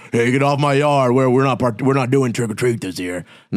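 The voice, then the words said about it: Imitates another person's voice, accented. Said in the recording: “did the accent give it away?”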